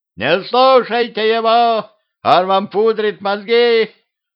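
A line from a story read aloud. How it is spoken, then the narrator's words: Old woman yelling. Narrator (Russian): заорала бабка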